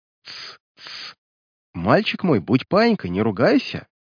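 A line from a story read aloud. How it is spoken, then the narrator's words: Coaxing with mocking laughter. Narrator (Russian): Увещевал его прекрасный демон и снова рассмеялся своим ехидным, бессердечным смехом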